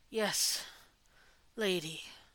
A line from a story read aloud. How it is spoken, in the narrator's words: Lila managed to say before a huge yawn overtook him